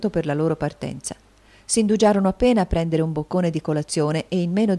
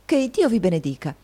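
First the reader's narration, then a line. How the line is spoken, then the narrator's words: Exclaimed. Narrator (Italian): esclamò Nicola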